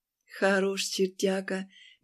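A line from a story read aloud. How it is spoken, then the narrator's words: Dreamy sigh. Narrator (Russian): мечтательно вздохнула Ленка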